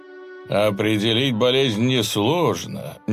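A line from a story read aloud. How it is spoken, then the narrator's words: Displeased drawl. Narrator (Russian): недовольным тоном протянул Жуль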